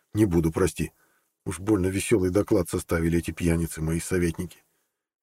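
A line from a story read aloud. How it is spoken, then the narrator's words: Whispered. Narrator (Russian): Он шепнул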